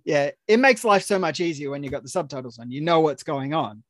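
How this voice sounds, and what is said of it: Australian accent. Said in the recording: “They enjoy the Australian accent. ... trying to order a coffee in America is very hard with this accent.”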